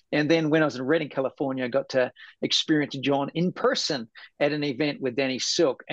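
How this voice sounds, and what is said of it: New Zealand accent. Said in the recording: “I love Kiwis ... I just love your accent ... Sometimes I struggle with New Zealand and England.”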